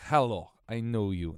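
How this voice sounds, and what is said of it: Bad put-on Russian accent. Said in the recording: “That's the worst accent.”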